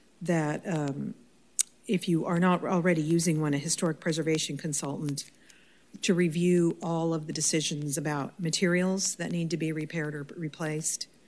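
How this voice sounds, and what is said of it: Hoarse, fading voice. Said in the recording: “I'm losing my voice also”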